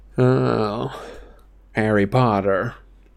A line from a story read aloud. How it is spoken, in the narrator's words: a cool voice said